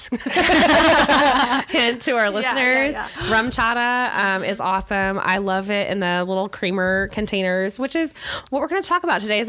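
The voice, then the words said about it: Weak, failing voice from illness. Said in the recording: “feeling a little under the weather, as you can tell, my voice is evading me ... good for the cough”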